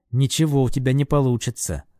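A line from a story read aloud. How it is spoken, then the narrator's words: Angry whisper. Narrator (Russian): зло прошептал я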